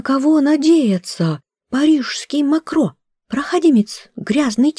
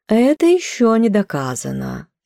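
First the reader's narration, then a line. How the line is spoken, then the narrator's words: Feigned indifference. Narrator (Russian): искусственно равнодушным тоном сказала хозяйка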